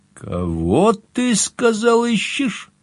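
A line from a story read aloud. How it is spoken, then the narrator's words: Bursting into laughter. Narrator (Russian): разразился хохотом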